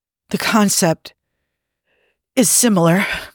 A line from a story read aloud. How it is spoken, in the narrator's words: breathed Spock